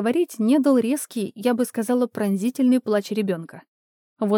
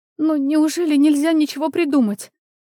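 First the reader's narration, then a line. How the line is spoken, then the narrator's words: Young woman holding back sobs. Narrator (Russian): Девушка с трудом сдерживала всхлипывание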